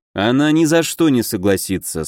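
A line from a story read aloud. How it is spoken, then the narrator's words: Calm, confident. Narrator (Russian): спокойно произнес я, полностью уверенный в своих словах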